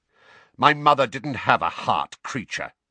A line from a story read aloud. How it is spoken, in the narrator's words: snapped Sirius